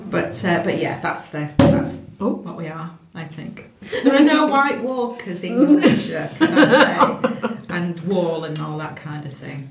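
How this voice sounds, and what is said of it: Strong Yorkshire accent. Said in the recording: “Not as Yorkshire as me ... I think we're all very Yorkshire.”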